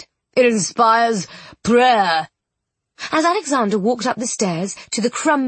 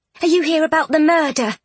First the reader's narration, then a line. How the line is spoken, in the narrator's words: She asked tightly